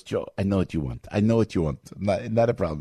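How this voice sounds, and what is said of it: Imitated Italian accent. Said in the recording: “with his Italian accent”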